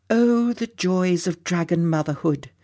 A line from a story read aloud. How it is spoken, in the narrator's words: murmured Susie